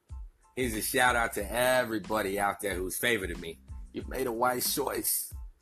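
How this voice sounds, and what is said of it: Southern twang. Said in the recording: “that hobo with his southern twang, the man with the million-dollar voice”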